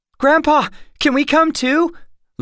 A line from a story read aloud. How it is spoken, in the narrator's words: Lindy called out